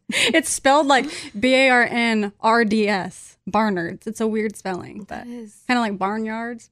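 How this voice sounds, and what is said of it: Country accent. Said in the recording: “There's that country accent.”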